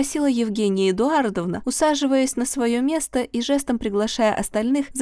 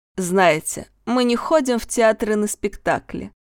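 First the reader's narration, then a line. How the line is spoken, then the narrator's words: Tedious droning drawl. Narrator (Russian): нудным голосом затянул Леонид Алексеевич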